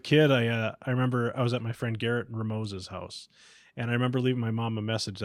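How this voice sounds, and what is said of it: Usual voice. Nothing is said of it.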